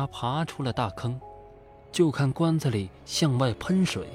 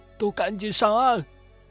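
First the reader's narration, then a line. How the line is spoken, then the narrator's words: Loud shout, bloodied. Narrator (Chinese): 算命先生满脸是血的大声喊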